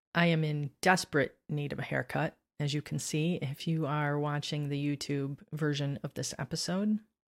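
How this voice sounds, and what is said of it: Slightly scratchy, hoarse voice. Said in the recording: “I think I'm coming down with a cold. My voice is a little scratchy. My throat's a little sore.”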